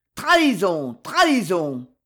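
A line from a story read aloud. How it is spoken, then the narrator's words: Furious shouting. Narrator (French): vociféra le duc d'Angoulême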